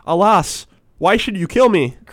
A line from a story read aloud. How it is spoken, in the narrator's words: cried the fisherman